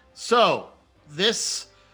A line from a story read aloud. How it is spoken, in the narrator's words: she yells